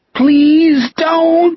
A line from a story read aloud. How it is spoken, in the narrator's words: Jack wailed